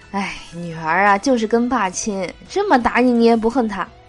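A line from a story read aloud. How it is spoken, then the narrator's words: Mother sighing. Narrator (Chinese): 老妈感叹道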